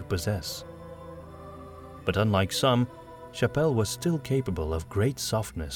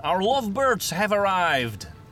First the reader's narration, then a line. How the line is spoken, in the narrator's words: Gustav shouted, subtle as ever